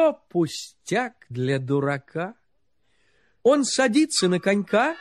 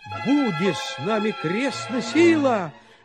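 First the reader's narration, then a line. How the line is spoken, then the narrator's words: Shouting. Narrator (Russian): закричал тогда Гаврила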